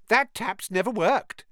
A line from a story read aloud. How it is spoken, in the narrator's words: said Myrtle brightly